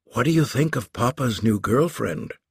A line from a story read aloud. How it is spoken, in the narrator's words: Marissa whispered to Stone